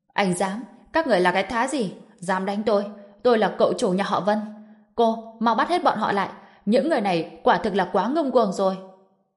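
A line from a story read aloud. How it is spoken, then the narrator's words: Loud shout. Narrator (Vietnamese): Vân Minh Quân hét lớn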